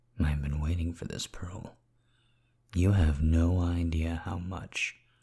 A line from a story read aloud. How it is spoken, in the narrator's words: I murmured into her mouth